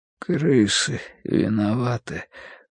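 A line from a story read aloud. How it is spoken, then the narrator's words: Sudden mutter. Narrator (Russian): пробормотал вдруг Бадри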